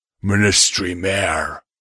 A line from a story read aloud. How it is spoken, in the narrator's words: rumbled